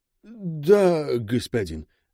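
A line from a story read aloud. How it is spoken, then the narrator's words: Mumbled. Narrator (Russian): промямлил глава отряда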